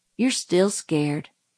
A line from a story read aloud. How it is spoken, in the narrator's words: murmured Dill patiently